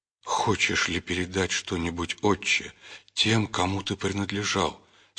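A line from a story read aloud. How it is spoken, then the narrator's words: Tearful question. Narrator (Russian): сквозь слезы спросил патриарх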